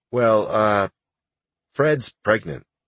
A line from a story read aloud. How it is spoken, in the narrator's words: hesitantly replied